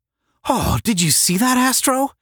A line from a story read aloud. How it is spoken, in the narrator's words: asked Tom excitedly